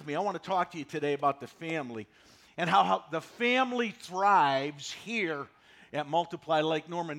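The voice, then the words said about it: Slightly hoarse, froggy voice. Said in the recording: “I feel a little hoarse today ... I got a little bit of a frog in my throat”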